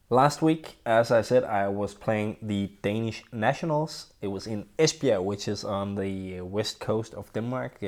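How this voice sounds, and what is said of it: Slightly unwell-sounding voice. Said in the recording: “sorry if I sound a little bit different today, I'm struggling a little bit with my health ... if you can tell the difference from my voice”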